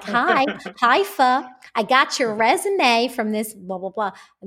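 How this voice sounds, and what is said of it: Poor imitation of an American accent. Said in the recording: “American accent ... She has a better accent. That was a terrible accent.”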